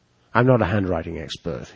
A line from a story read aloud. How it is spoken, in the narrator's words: he said